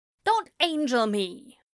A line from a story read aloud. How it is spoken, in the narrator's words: Aziraphale snaps